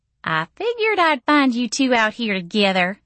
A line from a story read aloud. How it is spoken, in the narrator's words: she said brightly